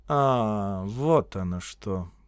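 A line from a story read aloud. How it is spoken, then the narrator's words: Drawling. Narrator (Russian): протянул генерал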